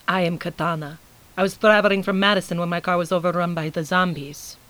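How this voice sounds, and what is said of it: Foreign accent. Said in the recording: “despite her accent”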